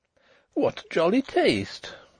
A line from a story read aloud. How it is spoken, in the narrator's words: she exclaimed